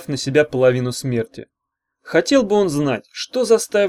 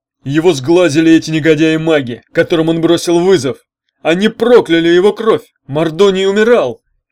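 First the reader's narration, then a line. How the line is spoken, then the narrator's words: Shouting centaur. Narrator (Russian): крикнул Серый в яблоках кентавр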